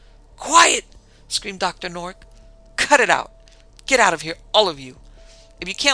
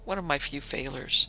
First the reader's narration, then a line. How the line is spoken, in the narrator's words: he murmured